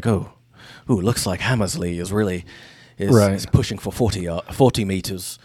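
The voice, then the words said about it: Weak put-on Aussie accent. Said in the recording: “They're not British, I just realized. ... You got to up your Aussie accent there, mate.”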